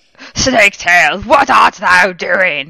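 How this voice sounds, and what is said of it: Theatrical Shakespearean villain voice. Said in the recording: “talk like a Shakespeare villain”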